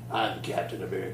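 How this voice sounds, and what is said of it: Deep gritty character voice. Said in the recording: “the grittiest version possible ... I don't know how they make a deep voice in comics, but yeah, like that.”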